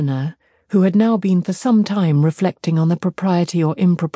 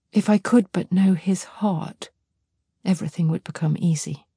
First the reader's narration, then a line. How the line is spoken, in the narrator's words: added in a low voice